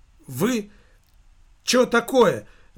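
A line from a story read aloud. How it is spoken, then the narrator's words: Shouting. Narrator (Russian): выкрикнул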